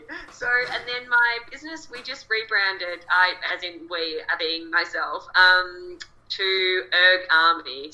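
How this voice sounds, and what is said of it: Natural Australian accent. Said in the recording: “the Australian accent ... you have it as natural”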